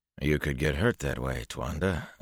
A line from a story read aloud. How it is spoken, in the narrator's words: Elias muttered